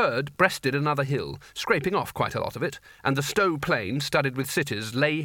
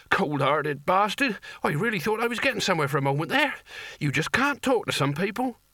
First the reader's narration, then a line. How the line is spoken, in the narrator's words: he wheezed